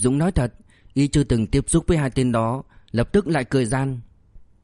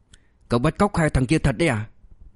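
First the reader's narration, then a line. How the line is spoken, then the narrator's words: Horrified hiss through teeth. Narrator (Vietnamese): Sài Trâm Sơn thực sự kinh hoàng, hạ thấp giọng xuống, nó như đít qua kẽ răng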